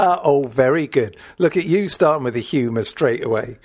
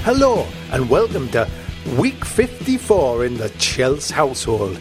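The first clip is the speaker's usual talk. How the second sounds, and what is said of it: Put-on Welsh accent. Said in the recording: “why are you talking in a Welsh accent?”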